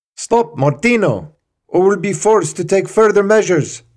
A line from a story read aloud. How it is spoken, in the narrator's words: shouted the senior guard in French